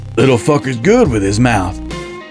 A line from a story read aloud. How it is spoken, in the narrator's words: Harlan chuckled